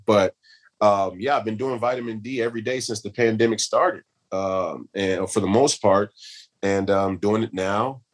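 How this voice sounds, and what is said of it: Scratchy, slightly hoarse voice. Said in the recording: “I tested positive for COVID ... which is why my voice is a little scratchy”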